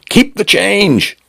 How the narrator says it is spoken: he shouted

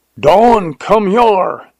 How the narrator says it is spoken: yelled Jones

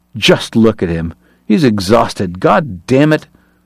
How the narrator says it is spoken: Uncharmed, Kate snarled

